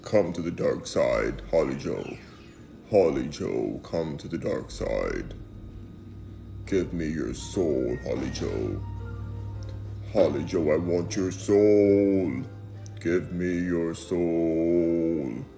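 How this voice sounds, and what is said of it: Deep, intimidating villain voice. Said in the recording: “I do this voice well ... that deep voice ... sounded like somebody trying to intimidate”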